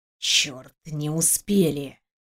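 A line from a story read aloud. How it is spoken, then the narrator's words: Whispered. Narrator (Russian): прошептал этот несчастный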